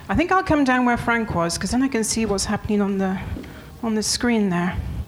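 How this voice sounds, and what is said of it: Non-French foreign accent. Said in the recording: “You can hear from my accent that I'm not French”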